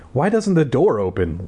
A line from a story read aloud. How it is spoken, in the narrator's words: Libby asked in a trembling voice